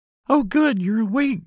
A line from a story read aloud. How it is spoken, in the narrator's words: she exclaims